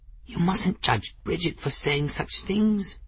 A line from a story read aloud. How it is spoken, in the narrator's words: Folly murmured